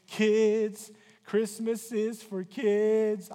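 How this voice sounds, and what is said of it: Imitates a country singer's voice. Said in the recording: “my best Kenny Rogers impression”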